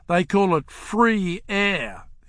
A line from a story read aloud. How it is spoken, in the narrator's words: he said bitterly